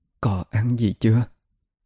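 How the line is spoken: Gentle question. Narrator (Vietnamese): Chị nhẹ nhàng hỏi

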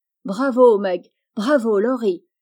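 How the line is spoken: Exclaimed. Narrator (French): s'écria Jo

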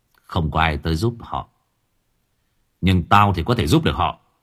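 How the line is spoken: Cold reply. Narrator (Vietnamese): Mặc lạnh lùng quay sang đáp

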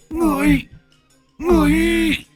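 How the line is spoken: Trembling stammer. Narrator (Vietnamese): Con quỷ bất chợt run rẩy, nó lắp bắp

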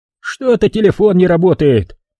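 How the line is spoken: Irritated host. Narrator (Russian): раздраженно дуя в трубку, сказал хозяин

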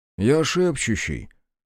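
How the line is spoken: Calm explanation. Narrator (Russian): спокойно пояснил ей Содрихт

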